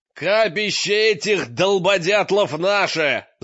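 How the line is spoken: Yelling. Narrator (Russian): заорал

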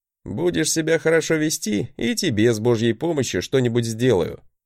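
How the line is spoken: Chuckling. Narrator (Russian): хохотнул я

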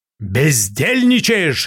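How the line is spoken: Barked. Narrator (Russian): рявкнул я

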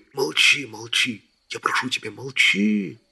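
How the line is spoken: Whisper. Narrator (Russian): шептал рыцарь

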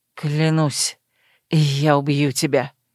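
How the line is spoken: Hissed through teeth. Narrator (Russian): прошипел сквозь зубы

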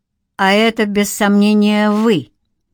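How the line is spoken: Mocking. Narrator (Russian): насмешливо отозвался давешний мотоциклист

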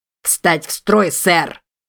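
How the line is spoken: Regretful bark. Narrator (Russian): Почти с сожалением рявкнул он

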